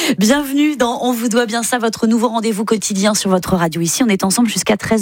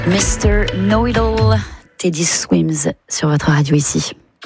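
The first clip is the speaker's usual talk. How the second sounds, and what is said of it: Put-on English accent, suave voice. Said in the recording (French): “mon accent ridicule ... Une voix suave ... Suis-je londonienne?”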